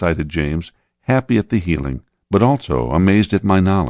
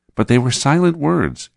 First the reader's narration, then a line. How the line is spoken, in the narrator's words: exclaimed James